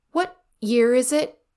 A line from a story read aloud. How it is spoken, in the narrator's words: He asked, once he could keep his voice steady